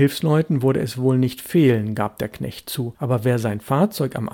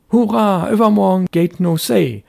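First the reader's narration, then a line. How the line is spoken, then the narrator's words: Boy calling out. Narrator (German): rief der Junge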